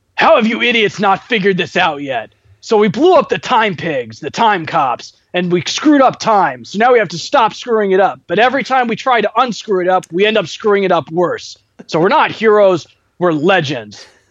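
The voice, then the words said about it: Imitates another person's voice. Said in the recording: “just has this wonderful voice ... my best imitation of his intro”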